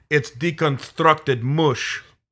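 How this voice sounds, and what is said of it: Put-on Russian accent. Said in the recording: “in a Russian accent”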